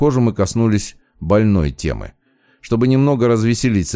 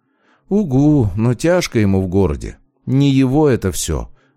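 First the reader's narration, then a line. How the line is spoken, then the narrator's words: Sad sigh. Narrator (Russian): вздохнула девушка и заметно погрустнела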